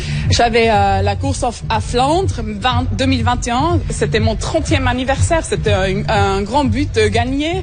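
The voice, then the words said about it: Charming Swiss French accent. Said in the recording (French): “le charmant accent suisse”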